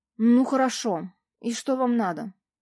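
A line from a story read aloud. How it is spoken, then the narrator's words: Strained, forced out. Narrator (Russian): наконец выдавил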